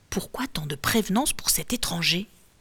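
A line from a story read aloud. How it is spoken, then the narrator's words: Murmured. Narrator (French): murmure l'un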